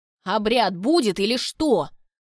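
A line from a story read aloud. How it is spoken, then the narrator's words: Several voices shouting. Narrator (Russian): выкрикнули несколько голосов из зала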